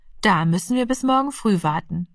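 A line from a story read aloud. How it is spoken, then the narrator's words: Plain. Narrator (German): sagte die Mutter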